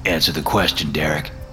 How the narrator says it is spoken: he replied

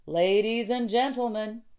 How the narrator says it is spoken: he shouted

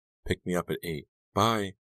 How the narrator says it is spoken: she hurriedly whispered

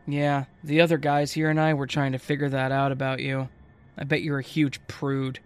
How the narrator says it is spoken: while chuckling, and then said

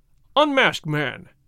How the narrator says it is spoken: cried the governor

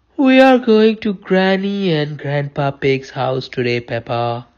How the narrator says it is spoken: replied Mummy Pig sleepily

